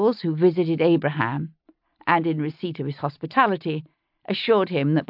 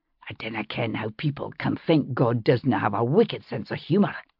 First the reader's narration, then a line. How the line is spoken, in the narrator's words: he whispered to me